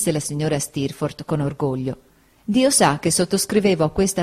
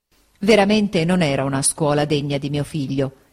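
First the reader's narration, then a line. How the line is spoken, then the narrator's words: Plain. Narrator (Italian): ella disse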